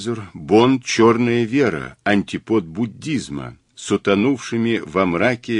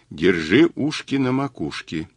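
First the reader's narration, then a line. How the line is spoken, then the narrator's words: Quiet. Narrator (Russian): тихо сказал Мазур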